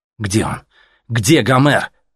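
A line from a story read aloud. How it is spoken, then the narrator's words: Shout. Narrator (Russian): выкрикнул ему Артем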